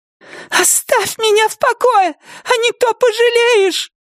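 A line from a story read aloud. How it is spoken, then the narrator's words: Shrill, thin, trembling cry. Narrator (Russian): визгливо выкрикнула она своим тонким дрожащим голосом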